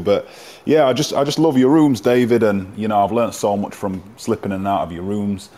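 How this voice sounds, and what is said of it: Elegant English-sounding accent. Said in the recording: “your accent seems much more elegant than mine ... that's just the English half of me”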